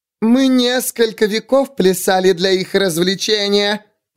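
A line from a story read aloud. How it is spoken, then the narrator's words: Shrieking. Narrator (Russian): провизжала судья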